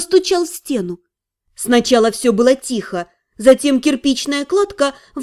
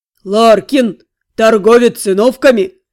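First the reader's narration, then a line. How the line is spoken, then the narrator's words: Booming frightening giant's bass. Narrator (Russian): прогремел великан пугающим басом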